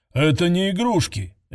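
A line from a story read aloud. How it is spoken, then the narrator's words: Angry bark. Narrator (Russian): рявкнул ученый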